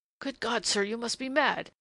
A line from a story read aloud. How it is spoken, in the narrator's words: he said in a strained, sharp voice that his ears would not have known as his own